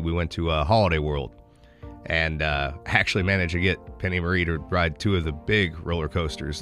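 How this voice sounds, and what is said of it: Congested, slightly off voice. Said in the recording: “my voice sounds a little off ... because of, various sinus stuff”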